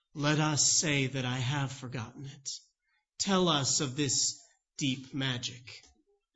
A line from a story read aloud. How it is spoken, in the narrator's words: Aslan gravely responds and says